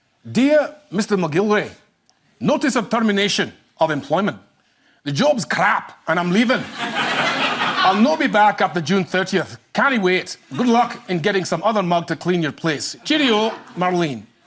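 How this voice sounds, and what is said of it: Put-on Scottish accent. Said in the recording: “my off-the-cuff Scottish accent”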